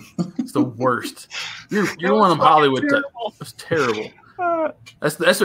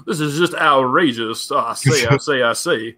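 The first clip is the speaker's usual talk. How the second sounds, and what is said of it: Pompous Southern plantation-owner accent. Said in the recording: “Southern accents... the rich, pompous plantation owner”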